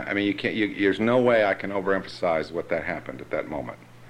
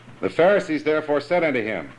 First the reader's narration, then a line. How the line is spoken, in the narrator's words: they didn't just say, they yelled